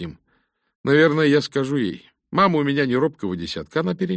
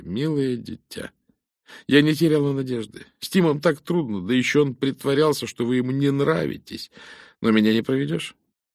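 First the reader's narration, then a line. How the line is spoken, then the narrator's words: Trembling voice. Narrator (Russian): Розали сказала дрогнувшим голосом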